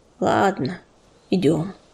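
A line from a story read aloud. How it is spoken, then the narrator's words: Deep sigh, then speaking. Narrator (Russian): Он глубоко вздохнул и сказал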